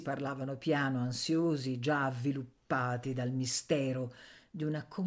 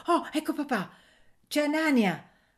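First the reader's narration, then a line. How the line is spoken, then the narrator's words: Exclaiming while running. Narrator (Italian): esclamò correndo verso l'uscio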